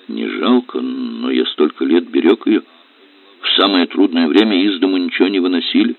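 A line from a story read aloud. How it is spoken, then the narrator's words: Mumbling, self-conscious explanation. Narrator (Russian): пытался объяснить Аристарх Павлович, стал противен себе, не говорил, а мямлил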